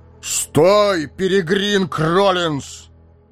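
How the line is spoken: Loud bark. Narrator (Russian): гаркнул Гэндальф

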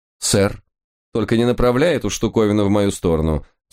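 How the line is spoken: Stern warning. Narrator (Russian): строго предупредил Лис

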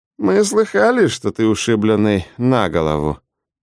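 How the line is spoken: Muttered. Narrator (Russian): буркнул он

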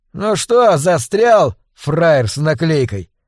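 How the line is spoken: Loud over howling wind. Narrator (Russian): спросил парень достаточно громко, чтобы перекричать вой ветра

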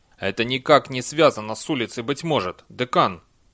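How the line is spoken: Sharp. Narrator (Russian): резко сказал Чудакули

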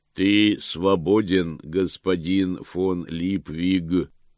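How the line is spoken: Booming voice. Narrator (Russian): прогремел голос

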